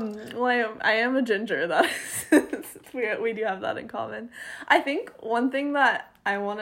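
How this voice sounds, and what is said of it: Usual voice. Nothing is said of it.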